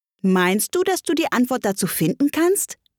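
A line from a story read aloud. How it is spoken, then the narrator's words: Plain question. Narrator (German): fragte der Faselhase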